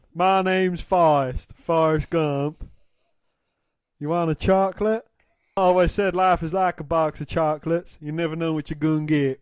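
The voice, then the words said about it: Forrest Gump character accent. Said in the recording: “Do it in the accent, go on. ... I've done an accent, you've got to do an accent ... that was ... doing the alternate intro, Forrest Gump”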